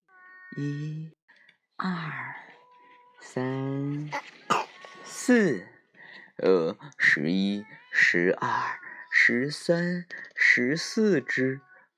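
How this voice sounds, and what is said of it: Whispered counting. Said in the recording (Chinese): “小声的数了起来”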